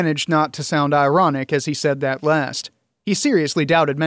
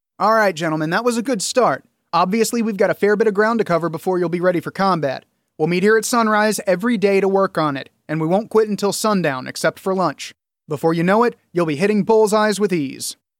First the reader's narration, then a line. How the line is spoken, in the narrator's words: More loudly, Julian said